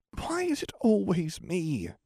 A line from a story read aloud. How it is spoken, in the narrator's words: Neville muttered in annoyance